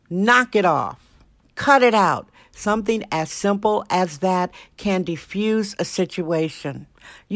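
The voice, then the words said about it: Passionate, impassioned delivery. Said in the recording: “hear the passion in my voice?”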